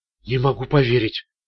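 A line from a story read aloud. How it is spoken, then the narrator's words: Mumbling. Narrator (Russian): пробормотала Харпер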